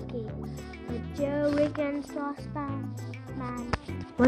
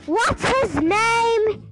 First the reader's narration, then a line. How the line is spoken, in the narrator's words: She cried